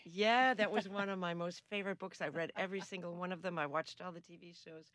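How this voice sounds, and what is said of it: Non-Australian accent. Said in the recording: “We can tell from your accent that you're potentially not born in downtown North Sydney”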